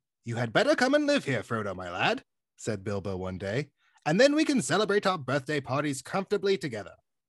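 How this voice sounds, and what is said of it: Reads in a storybook character voice. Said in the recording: “probably do the voice ... How was the voice? Was the voice okay? ... Actually, yeah, pretty good.”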